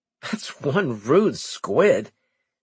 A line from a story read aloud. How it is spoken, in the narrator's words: Cooper chuckled